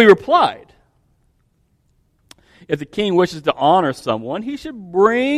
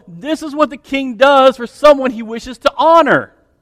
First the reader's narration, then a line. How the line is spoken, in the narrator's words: Have the officials shout